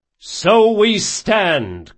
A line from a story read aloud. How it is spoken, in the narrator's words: came a chorus of shouts